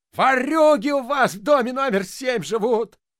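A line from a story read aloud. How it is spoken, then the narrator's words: Yelling. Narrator (Russian): вопил дворник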